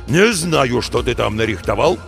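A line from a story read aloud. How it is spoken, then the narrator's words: Growling boss. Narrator (Russian): продолжал рычать шеф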